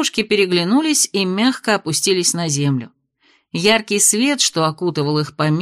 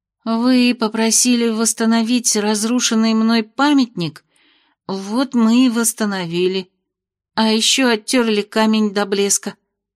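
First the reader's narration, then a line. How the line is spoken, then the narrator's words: Trembling small voice. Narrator (Russian): объяснила дрожащим голоском Нора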